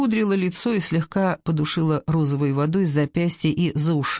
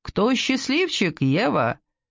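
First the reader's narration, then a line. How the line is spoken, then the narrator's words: Laughing. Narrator (Russian): Она рассмеялась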